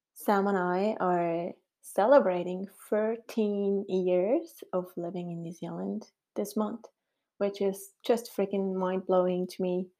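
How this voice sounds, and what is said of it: Swiss accent in English. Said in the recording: “my funny accent that I was born in Switzerland”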